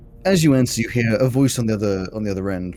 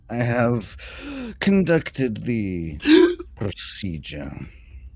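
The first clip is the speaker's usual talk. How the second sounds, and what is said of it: Creepy character voice. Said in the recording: “Rather creepy. ... the cleric with the creepy voice.”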